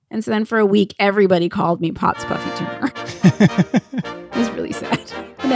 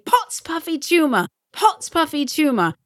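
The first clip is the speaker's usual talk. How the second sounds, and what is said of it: Good put-on British accent. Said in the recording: “You do a really good British accent.”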